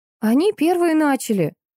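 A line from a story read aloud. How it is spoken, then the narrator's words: Quick exclamation. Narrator (Russian): тут же воскликнула мандаринка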